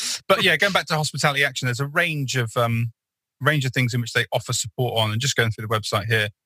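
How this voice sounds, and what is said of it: Usual voice. Nothing is said of it.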